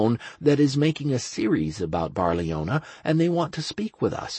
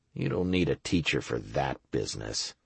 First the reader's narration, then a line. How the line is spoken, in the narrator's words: I muttered grimly